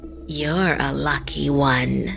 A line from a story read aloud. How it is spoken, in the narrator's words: the woman said in a creepy voice